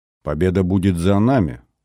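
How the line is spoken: Calm. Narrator (Russian): спокойно проговорила Исаева

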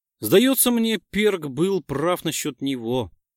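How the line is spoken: Sighing. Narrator (Russian): вздохнул Виллис

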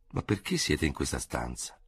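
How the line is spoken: Astonished murmur. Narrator (Italian): mormorò al colmo dello stupore

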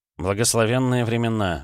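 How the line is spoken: Sighing. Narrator (Russian): вздохнул Степан

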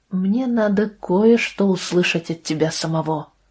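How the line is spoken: Plain. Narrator (Russian): сказал Иона

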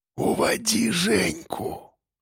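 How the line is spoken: Weak whisper. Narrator (Russian): Прошептал он слабо

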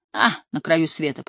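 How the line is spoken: Grumble. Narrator (Russian): пробурчала я

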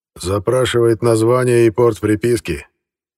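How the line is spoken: Snort. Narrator (Russian): Карпенко хмыкнул

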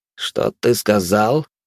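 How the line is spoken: Silky, insinuating question. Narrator (Russian): вкрадчиво спросил красноволосый

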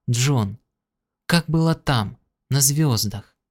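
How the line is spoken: Quiet question. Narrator (Russian): Кэрол тихо спросила

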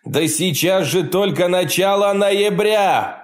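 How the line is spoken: Shouted. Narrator (Russian): прокричал он

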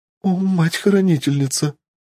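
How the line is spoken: Sobbing girl. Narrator (Russian): всхлипнула девушка

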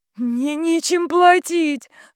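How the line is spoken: Sobbing. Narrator (Russian): зарыдала Вика

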